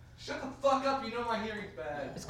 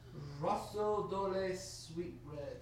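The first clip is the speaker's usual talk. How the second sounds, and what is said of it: Fancy put-on foreign accent. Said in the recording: “you don't have to say it with an accent ... I'm trying to be fancy”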